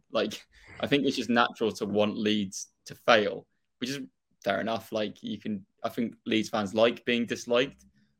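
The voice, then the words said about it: Strong Norfolk English accent. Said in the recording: “my really Norfolk accent”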